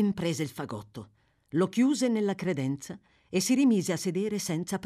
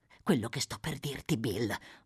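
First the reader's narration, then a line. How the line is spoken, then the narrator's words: Murmured. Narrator (Italian): mormorò Fagin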